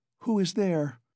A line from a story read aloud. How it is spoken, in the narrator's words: a woman's voice asked uneasily